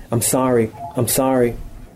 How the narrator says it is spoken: She said over and over again in a terrified voice

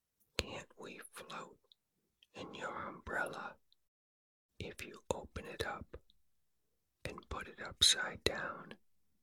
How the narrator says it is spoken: Pooh asked

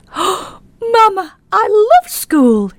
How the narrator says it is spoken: he said excitedly

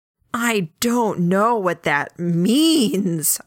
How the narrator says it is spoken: I screamed internally

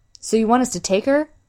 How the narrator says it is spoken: Brandish asked

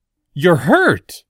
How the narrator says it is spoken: Hiru blurted suddenly

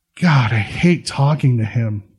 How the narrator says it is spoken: she mutters

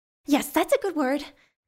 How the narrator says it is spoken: Choate exclaimed

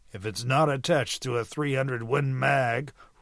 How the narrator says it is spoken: rumbled Graydon

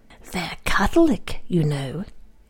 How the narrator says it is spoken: she told me in her most grating whisper, lest she should offend the ears of the children in the dining room

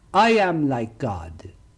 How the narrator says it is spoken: he cried out

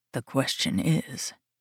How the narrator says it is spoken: says softly

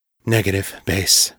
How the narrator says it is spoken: the captain said, her voice hollow

